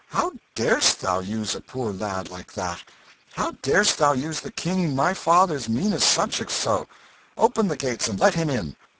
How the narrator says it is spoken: the young prince with his face flushed and his eyes flashing with indignation, and cried out

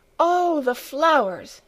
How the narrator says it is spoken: exclaimed Clara

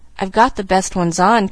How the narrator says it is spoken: confessed Pollyanna anxiously

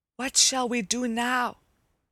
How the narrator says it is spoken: whispered Hickory to his brothers

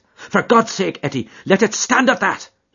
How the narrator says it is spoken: he cried

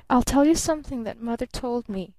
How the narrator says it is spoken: she murmured

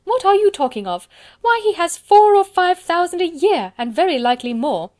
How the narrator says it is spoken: cried his wife

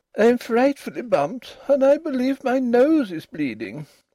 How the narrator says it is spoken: said Ruth, still more plaintively

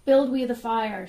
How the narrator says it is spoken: shouted his followers

